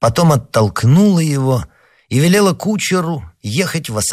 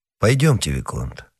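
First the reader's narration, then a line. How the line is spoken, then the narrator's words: Plain. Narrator (Russian): сказал он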